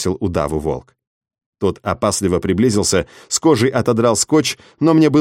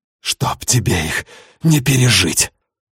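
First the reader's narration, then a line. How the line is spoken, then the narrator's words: Breathed out, close. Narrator (Russian): Выдохнул я волку в лицо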